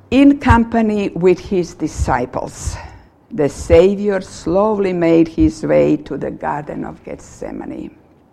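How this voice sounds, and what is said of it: Speaks with a noticeable accent. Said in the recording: “I read in my accent.”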